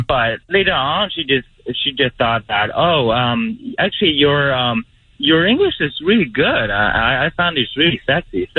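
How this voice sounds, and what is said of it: Chinese accent in English. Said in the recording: “so I'm Chinese. So you guys can definitely hear that I have an accent.”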